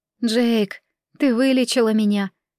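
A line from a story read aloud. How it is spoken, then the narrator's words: Heavy sigh, then speaking. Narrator (Russian): тяжело вздохнув, сказала Акация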